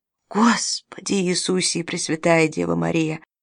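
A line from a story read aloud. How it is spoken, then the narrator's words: Excited whisper. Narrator (Russian): возбужденно прошептал Харкнес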